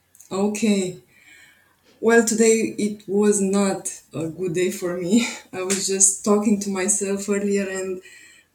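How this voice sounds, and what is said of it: Romanian-accented English. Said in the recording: “I love your accent. Where is your accent from? ... I'm from Romania. ... It's a very beautiful accent.”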